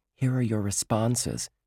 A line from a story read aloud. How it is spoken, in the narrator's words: whispered